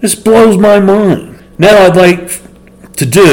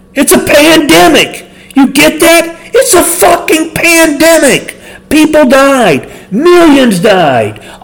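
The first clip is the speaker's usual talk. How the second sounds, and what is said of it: Imitates another person's voice. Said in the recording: “my imitation of Sam Kinison”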